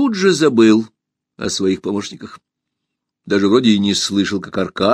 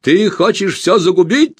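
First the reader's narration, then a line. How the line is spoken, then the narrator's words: Shout. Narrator (Russian): закричал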